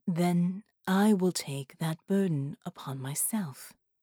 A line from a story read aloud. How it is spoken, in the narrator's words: said gravely